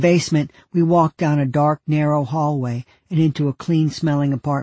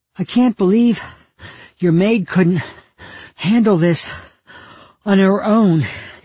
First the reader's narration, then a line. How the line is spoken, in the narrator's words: Ken said, gasping for air